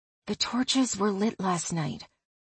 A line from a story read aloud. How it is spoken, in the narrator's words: whispered